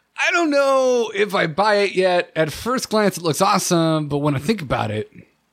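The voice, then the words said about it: Imitated voice, sentence tails off. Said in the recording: “my Dills impression ... Really accurate ... It's pretty good ... I just tail off? ... your speech pattern is like a manlier Charlie Day”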